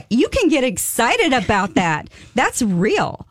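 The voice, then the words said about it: Excited, rising high-pitched voice. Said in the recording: “my voice is going up in octaves... I appreciate your exuberance.”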